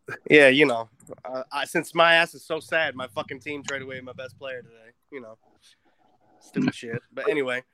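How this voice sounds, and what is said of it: New York accent. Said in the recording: “We definitely needed a New York accent today.”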